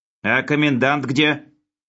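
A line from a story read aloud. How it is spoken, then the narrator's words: Menacing question. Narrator (Russian): грозно спросил Хлебоводов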